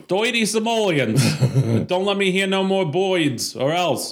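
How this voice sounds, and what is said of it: Old-time gangster voice. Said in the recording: “Lots of gangster talk”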